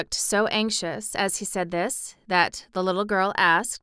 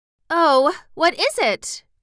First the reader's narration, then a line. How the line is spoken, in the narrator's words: cried Dorothy